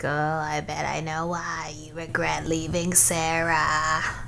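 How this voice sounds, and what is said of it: Taunting cartoon character voice. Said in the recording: “my impression's too good.”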